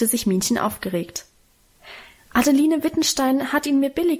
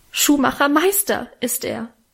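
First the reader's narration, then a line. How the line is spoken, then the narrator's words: Tearful calling out. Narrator (German): rief Minchen mit Tränen in den Augen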